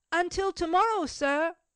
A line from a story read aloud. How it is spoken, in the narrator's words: Cecil called out in his turn